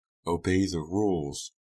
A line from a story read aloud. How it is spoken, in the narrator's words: her mother answered, lowering her voice, regaining her composure